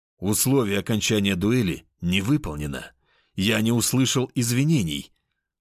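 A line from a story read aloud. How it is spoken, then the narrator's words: Growling. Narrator (Russian): рыкнул я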